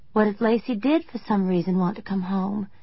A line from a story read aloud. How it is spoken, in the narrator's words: I said in a small voice, knowing how ridiculous I sounded